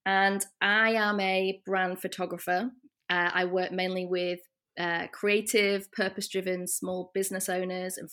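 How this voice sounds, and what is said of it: Northern English British accent. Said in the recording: “As you might be able to tell from my accent, I am British. I'm from the north of England originally”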